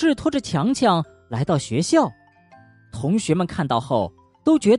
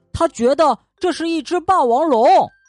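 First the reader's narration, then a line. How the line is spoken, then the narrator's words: Angry shout. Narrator (Chinese): 小智生气的对司机喊道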